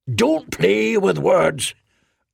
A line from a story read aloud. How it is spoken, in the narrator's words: Arnath roared